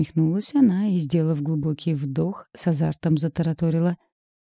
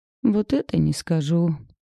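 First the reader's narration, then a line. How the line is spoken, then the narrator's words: Disappointed. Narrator (Russian): разочарованным тоном отозвалась Лариса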